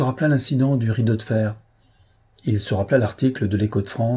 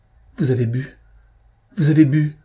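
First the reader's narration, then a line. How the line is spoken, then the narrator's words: Choked, strangled voice. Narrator (French): proféra-t-elle d'une voix étranglée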